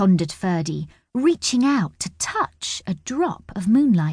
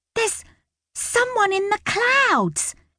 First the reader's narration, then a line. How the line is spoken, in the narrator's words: squealed